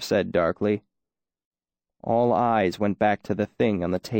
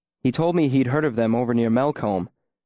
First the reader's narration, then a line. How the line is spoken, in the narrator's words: Coat said quickly